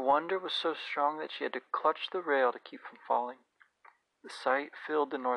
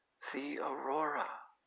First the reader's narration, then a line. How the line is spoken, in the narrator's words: Pantalaimon whispered